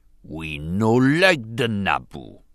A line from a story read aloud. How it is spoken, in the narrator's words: Bas Nass growled irritably